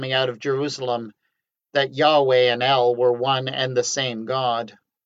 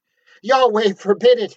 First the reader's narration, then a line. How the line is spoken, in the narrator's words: he cried